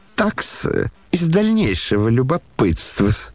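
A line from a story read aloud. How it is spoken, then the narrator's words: Sudden giggle. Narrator (Russian): хихикнул вдруг Лебедев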